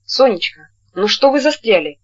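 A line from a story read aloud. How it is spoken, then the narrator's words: Seemingly angry question. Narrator (Russian): Сердито, как ей показалось, спросил он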